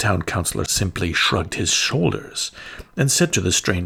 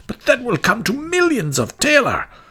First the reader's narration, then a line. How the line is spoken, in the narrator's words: cried the citizens